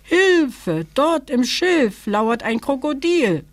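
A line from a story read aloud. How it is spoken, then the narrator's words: Young elephant calling. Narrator (German): rief das Elejunge abermals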